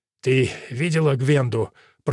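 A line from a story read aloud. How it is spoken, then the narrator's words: Hoarse wheeze. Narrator (Russian): прохрипел он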